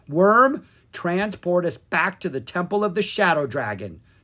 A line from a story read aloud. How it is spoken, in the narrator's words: Drake cried